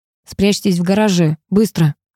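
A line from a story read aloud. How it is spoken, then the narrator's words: Through gritted teeth. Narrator (Russian): процедил сквозь зубы он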